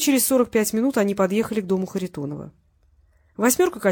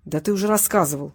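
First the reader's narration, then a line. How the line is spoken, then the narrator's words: Grumble. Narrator (Russian): буркнул Зубкин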